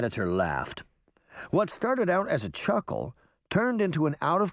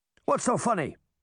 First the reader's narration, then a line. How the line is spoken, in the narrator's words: Sir Lancelot barked